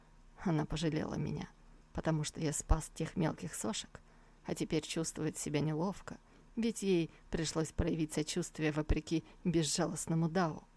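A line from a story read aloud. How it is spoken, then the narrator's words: Barely audible smirking mutter. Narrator (Russian): Молодой человек усмехнулся и еле слышно пробормотал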